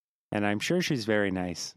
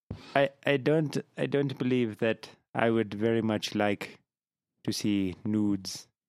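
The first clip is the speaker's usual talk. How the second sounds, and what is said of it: Put-on pirate accent. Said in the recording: “you just broke into a fucking pirate accent there... Specifically the one you use for Iron Claw... It's the multi-use accent.”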